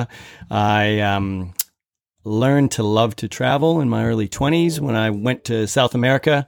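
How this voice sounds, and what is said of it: American Minnesota accent. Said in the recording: “You can probably tell from my accent, I am from the States. So I'm from Minnesota.”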